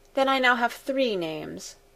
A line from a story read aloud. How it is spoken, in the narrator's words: she added with a sigh